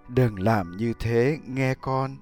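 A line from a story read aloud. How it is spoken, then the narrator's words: Gentle, mother's voice. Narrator (Vietnamese): người mẹ nhẹ nhàng nói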